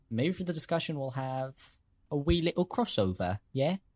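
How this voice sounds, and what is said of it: Put-on British accent. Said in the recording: “It's funny you did a British accent”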